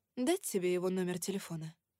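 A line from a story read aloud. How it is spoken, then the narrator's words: Soft question. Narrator (Russian): мягко спросила я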